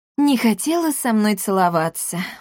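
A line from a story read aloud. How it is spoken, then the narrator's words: Sighing. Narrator (Russian): вздохнул Маркус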